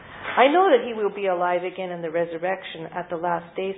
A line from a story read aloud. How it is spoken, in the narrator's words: said Martha